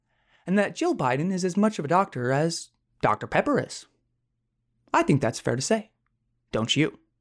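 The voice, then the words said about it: Imitates another person's voice. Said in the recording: “I think that impersonation was a little bit better ... you got Tucker saying that”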